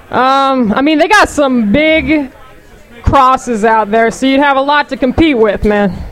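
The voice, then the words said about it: Heavy Alabama Southern accent. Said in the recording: “What's your accent? Where is that from? ... My family's from Alabama. ... Is it heavy? ... You know you're playing it up right now, right?”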